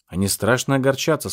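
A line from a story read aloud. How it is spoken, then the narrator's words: Plain. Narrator (Russian): сказал я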